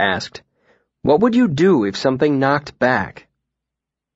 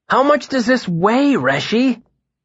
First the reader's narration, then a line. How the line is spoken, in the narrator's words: Bast exclaimed, looking rather exasperated